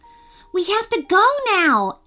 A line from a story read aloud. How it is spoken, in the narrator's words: Evelyn cried